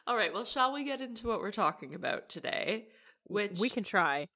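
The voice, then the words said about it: Slightly congested, phlegmy voice. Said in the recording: “I'm still a little tiny bit congested ... a little bit phlegmy, a little bit congested. And I can hear it in my voice when I'm talking”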